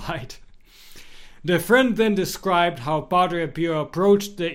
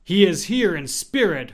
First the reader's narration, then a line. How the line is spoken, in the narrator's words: her friend answered